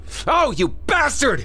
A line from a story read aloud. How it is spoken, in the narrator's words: Craig screamed